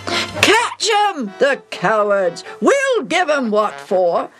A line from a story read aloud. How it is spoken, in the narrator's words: yells the wicked, excited king